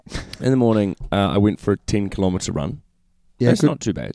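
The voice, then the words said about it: Slightly croaky, tired voice. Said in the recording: “As you can probably hear by my voice, it's a little croaky... I'm just tired.”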